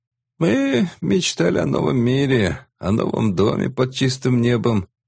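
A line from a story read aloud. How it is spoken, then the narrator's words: Muffled hoarse old voice. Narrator (Russian): глухим хриплым голосом говорил старик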